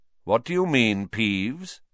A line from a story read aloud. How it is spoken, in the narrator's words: said Dumbledore calmly